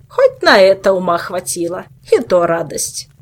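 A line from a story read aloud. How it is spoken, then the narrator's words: Grumbling. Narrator (Russian): Проворчала мудрая Хильдур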